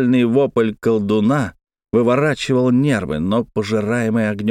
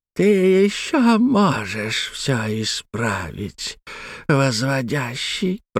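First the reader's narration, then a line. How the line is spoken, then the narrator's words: Creaking whisper. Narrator (Russian): проскрипел шепчущий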